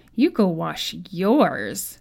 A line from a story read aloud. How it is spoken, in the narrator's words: the little boy screeched with laughter